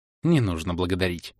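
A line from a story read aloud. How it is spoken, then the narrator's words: Soft, smiling. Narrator (Russian): мягко улыбнулась Элинса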